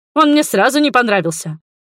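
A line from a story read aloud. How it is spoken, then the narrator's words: Declaration. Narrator (Russian): заявил Дудоля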